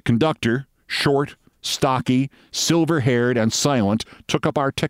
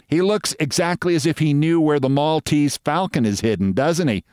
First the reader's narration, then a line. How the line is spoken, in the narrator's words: said Sylvia with the laugh that annoys me